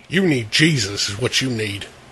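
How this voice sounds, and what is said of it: Put-on redneck accent. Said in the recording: “talking like a dumb fucking redneck”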